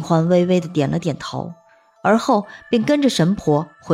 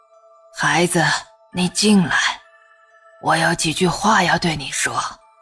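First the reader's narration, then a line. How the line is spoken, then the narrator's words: Low voice. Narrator (Chinese): 低声说道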